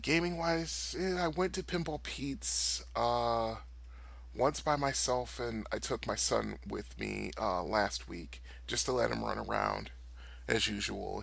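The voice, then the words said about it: Voice not at full strength. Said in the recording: “I still have a lingering cough, and I can hear that my voice isn't 100%”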